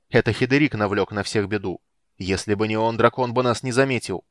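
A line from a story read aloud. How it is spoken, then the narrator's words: Exasperated outburst. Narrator (Russian): не сдержавшись, с досады воскликнул речной ветер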